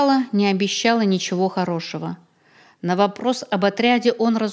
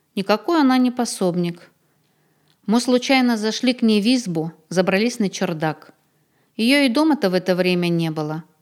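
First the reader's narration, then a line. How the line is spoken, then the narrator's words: Calm. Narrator (Russian): спокойно объяснил Сотников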